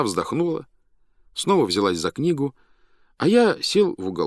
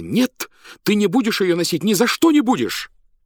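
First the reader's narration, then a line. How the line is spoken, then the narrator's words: Frightened exclamation. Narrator (Russian): она испуганно воскликнула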